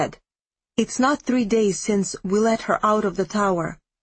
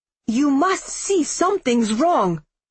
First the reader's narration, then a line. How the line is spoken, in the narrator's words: I said to him furiously